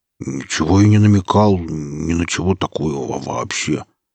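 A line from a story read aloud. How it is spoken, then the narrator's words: Mumbling, stumbling over words. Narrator (Russian): путаясь в словах, промямлил сталкер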